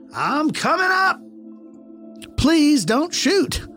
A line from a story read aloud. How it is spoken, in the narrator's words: Once again, I yelled a little louder